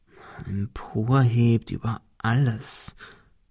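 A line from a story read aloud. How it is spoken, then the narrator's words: Murmuring. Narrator (German): murmelte Ben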